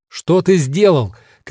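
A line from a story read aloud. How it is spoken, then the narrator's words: Shouted. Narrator (Russian): кричал он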